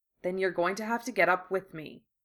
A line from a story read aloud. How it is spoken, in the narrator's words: Harry said, keeping his tone as light as possible